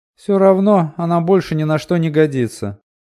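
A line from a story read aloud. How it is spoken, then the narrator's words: Grumbling. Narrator (Russian): проворчала Села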